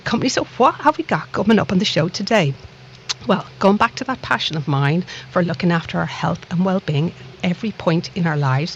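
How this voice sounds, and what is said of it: Dublin Irish accent. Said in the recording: “this little accent of mine, no, it's not from the lovely town of Liverpool. I like to think it's from an equally lovely town called Dublin across the Irish Sea”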